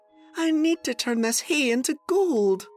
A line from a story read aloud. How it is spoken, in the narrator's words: sighed Sophie